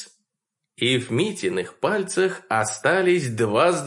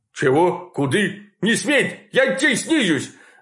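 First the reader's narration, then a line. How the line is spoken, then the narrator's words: Terrified bark, man. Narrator (Russian): Рявкнул он и с великого перепугу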